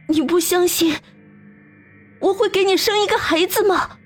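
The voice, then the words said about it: Satisfied yet despairing tone. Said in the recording (Chinese): “用满足而又绝望的声音说道”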